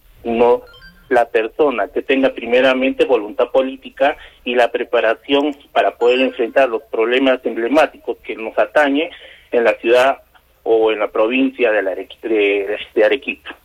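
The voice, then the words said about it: Old-sounding voice from oncoming flu. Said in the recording (Spanish): “me estás fingiendo la voz ... Voz de viejo ... me estaba imaginando que era un viejito panzón ... que me quiere dar la gripe”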